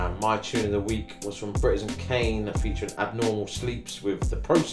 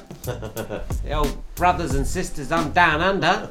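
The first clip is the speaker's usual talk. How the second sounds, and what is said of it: Bad put-on Australian accent. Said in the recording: “That's a terrible accent. ... That's bad.”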